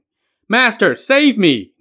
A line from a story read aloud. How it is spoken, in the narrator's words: Nezha shouted time and again